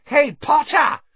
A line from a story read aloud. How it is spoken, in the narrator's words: shrieked Pansy Parkinson, a Slytherin girl with a face like a pug